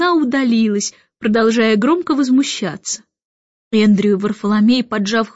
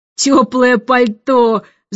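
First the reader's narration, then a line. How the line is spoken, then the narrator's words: Admiral growling. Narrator (Russian): зарычал адмирал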